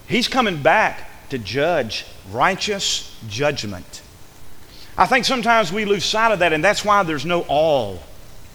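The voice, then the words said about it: Southern American accent. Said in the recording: “my southern accent, I'm not saying all, A-L-L, I'm saying A-W-E, all.”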